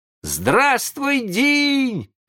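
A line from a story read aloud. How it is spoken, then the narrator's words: Surprised boys shouting. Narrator (Russian): закричали удивленные мальчишки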